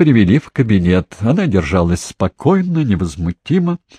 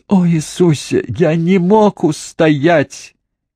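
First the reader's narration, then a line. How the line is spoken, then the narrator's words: Bursting into sobs. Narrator (Russian): Паркинсон разразился рыданиями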